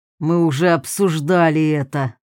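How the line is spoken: Angry retort. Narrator (Russian): зло бросил маг

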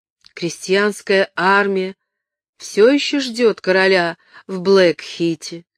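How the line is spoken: Plain question. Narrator (Russian): спросила она

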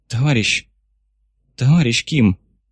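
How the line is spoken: Sharp exhale. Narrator (Russian): шпион резко выдохнул

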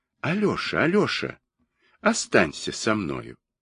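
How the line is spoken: Soft, quiet. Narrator (Russian): она тихонько ему говорит

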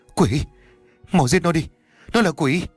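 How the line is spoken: Frightened. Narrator (Vietnamese): nói trong sợ hãi

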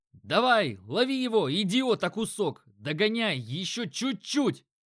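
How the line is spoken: Shouting. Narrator (Russian): кричал кто-то

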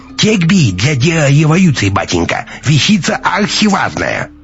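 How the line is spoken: Laughing, mocking burr. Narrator (Russian): рассмеялся товарищ Альфа и добавил с шутовской картавинкой

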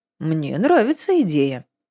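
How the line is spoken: Calm. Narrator (Russian): спокойно сказал Константин

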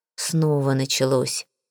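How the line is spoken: Quiet. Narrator (Russian): тихо сказал

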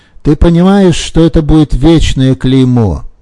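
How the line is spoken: Shouting. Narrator (Russian): кричал Дани

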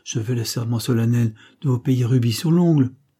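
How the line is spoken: Exclaimed. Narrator (French): s'écria Hector

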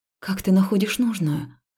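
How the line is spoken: Breathed out. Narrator (Russian): выдохнула я

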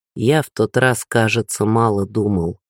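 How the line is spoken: Plain. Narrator (Russian): ответил муж

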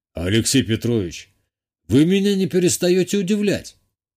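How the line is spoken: Snort. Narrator (Russian): хмыкнул Виталий Алексеевич

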